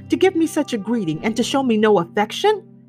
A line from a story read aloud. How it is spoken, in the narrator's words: cried